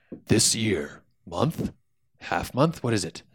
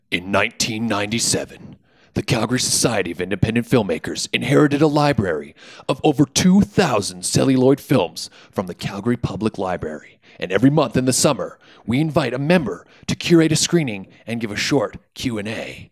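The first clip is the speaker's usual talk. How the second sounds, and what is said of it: Movie trailer narrator voice. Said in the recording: “trailer narrator voice”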